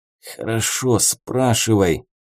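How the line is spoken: Hissed through teeth. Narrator (Russian): сквозь зубы прошипел мужик

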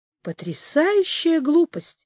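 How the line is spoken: Exclaiming. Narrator (Russian): воскликнул Орех

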